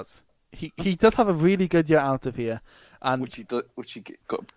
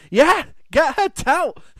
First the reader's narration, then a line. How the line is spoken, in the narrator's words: he just ended up shouting, a heavy Scottish accent